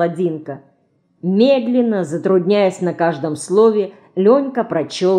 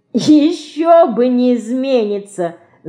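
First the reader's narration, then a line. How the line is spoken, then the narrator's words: Laughing. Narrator (Russian): засмеялась Динка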